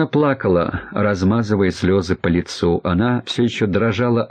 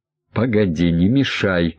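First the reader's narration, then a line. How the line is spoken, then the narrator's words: Angry, curt. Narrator (Russian): зло бросил Королев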